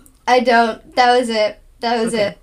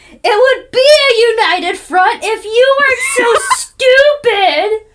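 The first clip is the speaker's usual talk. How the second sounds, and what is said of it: Angry yelling. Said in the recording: “I'm, like, yelling at Gonzalez in my car”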